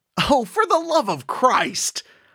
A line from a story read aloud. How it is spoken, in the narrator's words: yelled out